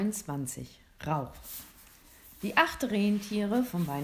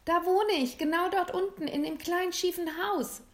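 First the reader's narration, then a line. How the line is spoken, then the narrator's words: Excited call. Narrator (German): rief aufgeregt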